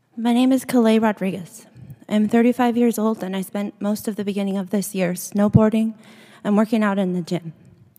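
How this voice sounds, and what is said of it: Quiet, soft speaking voice. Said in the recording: “I'm going to try to be loud, but my voice is quiet”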